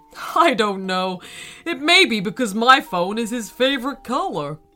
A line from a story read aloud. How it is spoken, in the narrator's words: Her dad laughed and replied